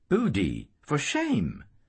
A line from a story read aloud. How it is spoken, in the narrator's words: Maggie exclaimed